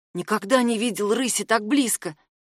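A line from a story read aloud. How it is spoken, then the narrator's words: Whisper. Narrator (Russian): прошептал Милан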